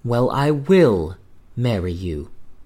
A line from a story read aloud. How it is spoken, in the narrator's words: she said